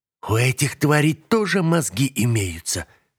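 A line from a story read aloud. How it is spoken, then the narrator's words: Hiss. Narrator (Russian): прошипел на меня Алкас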